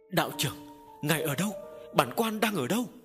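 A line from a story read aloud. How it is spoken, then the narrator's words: Relieved, desperate cry. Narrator (Vietnamese): Quan nghe tiếng đạo sĩ thì như vớ được cọc, kêu lên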